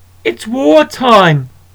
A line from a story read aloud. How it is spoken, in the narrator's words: roared Bobby